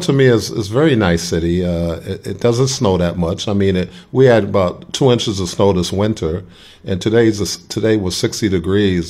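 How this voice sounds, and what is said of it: Slight Brooklyn accent. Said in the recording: “You still got that Brooklyn accent, a little bit going ... it comes out at now and then ... it comes out Brooklyn.”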